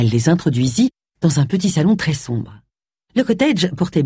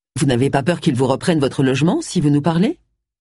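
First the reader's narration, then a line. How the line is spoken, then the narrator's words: Plain. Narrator (French): demanda Gérald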